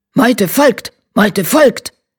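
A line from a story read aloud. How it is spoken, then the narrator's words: Barking voices. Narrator (German): bellten sie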